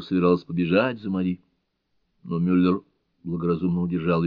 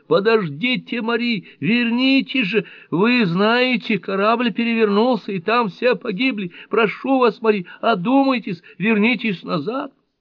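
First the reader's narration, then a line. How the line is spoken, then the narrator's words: Shouting after someone. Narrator (Russian): Нонни закричала ей вслед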